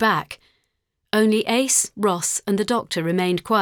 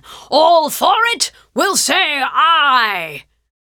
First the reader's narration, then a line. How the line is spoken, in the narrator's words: The near deafening sound of every man in the room shouting